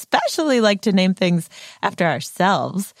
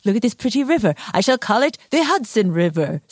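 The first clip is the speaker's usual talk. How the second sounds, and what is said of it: Henry Hudson impression. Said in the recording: “That was a very good Henry Hudson impression.”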